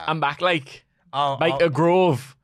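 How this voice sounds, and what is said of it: Imitation of Pac's Geordie accent. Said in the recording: “He cuts his lovely Geordie promo. ... I can barely do it. It's a very difficult accent to manage.”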